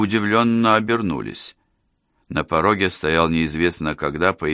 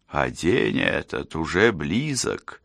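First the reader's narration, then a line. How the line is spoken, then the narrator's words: Quiet voice from doorway. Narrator (Russian): тихо донеслось с порога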